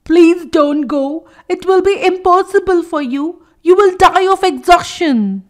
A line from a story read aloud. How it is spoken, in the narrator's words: The eldest frog pleaded